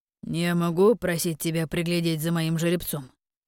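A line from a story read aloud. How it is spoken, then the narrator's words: Low-voiced question. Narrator (Russian): низким голосом спросил он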